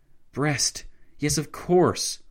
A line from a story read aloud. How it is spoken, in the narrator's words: Lloyd George exclaimed